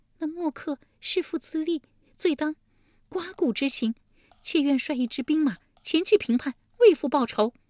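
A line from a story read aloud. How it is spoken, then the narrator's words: Tearful complaint. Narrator (Chinese): 利姬哭诉道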